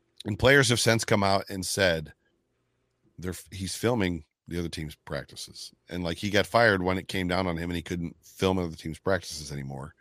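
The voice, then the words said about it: Hoarse, strained voice. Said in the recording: “I'm losing my voice a little bit.”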